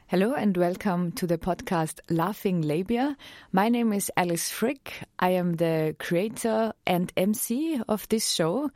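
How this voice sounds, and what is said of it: Austrian accent. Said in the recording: “I'm from Austria, so this accent is actually real.”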